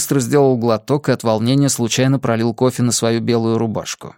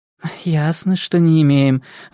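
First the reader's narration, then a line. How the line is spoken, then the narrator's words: Flustered sigh. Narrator (Russian): вздохнула Лилия, словно хватило малейшего возражения, чтобы она сбилась с темпа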